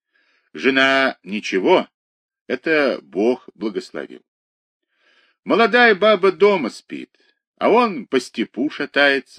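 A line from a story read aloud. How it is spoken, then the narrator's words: Laughing. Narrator (Russian): засмеялся Кирюха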